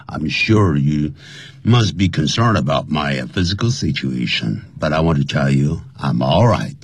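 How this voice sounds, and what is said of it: Slightly strange, sick-sounding voice. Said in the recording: “my voice is a little bit strange because I'm a little bit under the weather. The bad cold”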